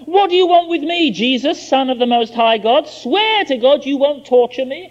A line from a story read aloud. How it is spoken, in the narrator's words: He shouted at the top of his voice